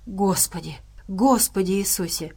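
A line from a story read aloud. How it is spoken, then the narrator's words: Muttering. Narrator (Russian): пробормотал медвежонок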